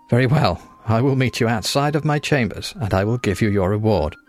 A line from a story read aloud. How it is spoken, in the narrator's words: With another small giggle, the Lord said